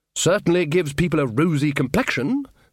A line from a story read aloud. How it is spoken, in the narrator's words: said Ridcully cheerfully